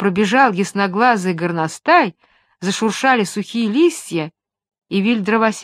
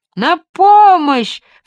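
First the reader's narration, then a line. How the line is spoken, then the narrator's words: Shouting, third time. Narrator (Russian): в третий раз закричал джип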